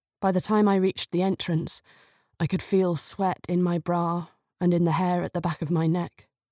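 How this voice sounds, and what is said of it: British accent. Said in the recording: “does have a British accent”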